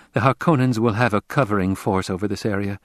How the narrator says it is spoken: she said

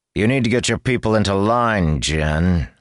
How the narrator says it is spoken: he snarled

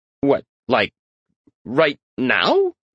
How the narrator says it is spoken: Patrick stammered

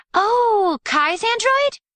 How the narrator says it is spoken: Aiko said, excitedly

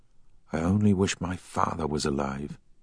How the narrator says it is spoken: whispered

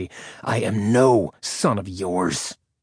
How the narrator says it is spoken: he snarled between clenched teeth

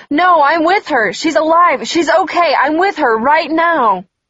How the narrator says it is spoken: I could hear my mom's voice screaming even louder through the phone

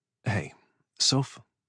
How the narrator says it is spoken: I asked, lowering my voice

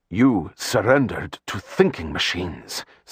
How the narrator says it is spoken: Stilgar said, his tone acidic

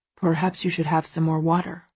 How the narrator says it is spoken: Christian murmurs, a warning clear in his voice

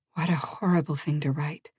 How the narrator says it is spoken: Elizabeth whispered

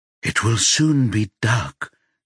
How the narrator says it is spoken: Nestor whispers to his reflection

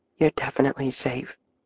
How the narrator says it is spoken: Katie whispered

